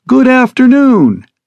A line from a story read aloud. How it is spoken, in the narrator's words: she chirps resoundingly over the speakers